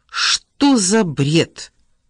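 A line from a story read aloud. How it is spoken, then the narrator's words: Barking. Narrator (Russian): рявкнул Ричард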